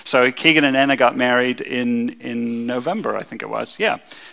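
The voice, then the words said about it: Speaks with a noticeable non-local accent. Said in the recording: “my accent makes it sound like I pester them”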